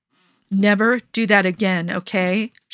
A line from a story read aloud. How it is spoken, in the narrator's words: she says, and her voice is shaking a little